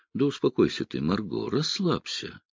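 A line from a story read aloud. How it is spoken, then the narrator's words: Quiet. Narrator (Russian): тихо проговорил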